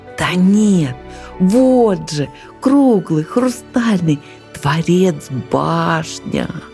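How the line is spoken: Young eagle's excited whisper. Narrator (Russian): взволнованно шептал беркутенок

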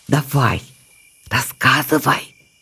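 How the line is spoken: Whispered demand. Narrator (Russian): шепотом потребовала Завирушка

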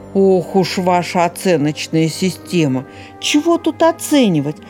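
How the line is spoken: Plain. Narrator (Russian): ответил Трухан

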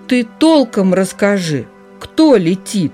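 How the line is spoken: Calm confident beaver voice. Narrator (Russian): спокойным и уверенным голосом заговорил бобр

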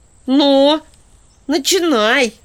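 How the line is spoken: Magpie's sharp shout. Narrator (Russian): выкрикнула сорока

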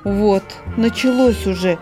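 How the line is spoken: Frightened small voice. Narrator (Russian): испуганно сказал ежонок

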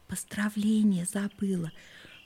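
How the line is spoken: Whispered prompt. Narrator (Russian): шепотом подсказала она

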